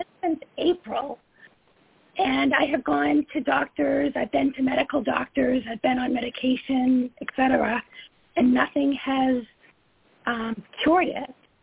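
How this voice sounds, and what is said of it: Hoarse voice. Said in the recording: “hoarseness that you can probably hear from my voice”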